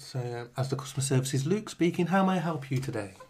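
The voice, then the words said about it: Polite middle-class telephone voice. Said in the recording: “Telephone voice. ... Middle class now ... That's a nice voice, that is.”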